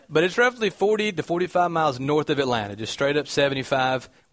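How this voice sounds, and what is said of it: Southern American twang. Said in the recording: “this weird noise that comes with my voice is. That's called a southern twang.”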